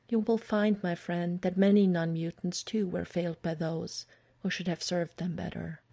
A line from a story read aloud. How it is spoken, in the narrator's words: Aurora had been quietly thoughtful when he told her, and only said later